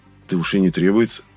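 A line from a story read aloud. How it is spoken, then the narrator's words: Muttered aside. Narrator (Russian): буркнул я в сторону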